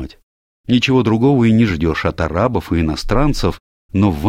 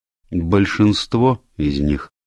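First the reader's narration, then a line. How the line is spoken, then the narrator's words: Grim confirmation. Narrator (Russian): мрачно подтвердила миссис Сатклифф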